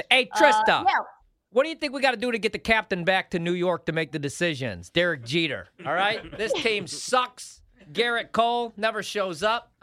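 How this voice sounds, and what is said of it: Attempted New York accent, not convincing. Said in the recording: “how's that New York accent? I don't think I got it. ... Cam says no ... It sounds more like Mark Drumheller.”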